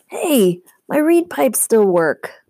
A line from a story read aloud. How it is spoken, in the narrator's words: Grover cried